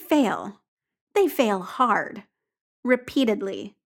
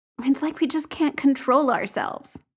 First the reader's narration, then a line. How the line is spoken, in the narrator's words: Jamie says mournfully